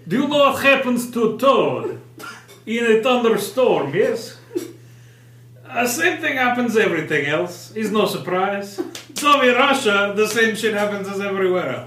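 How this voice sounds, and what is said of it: Put-on Russian accent, as Storm. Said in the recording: “say something about the weather in a Russian accent”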